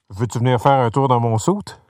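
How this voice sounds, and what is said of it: Poor imitation of Bonhomme Carnaval's voice. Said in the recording (French): “mon imitation de Bonhomme Carnaval ... C'est épouvant ... je me rapproche même pas”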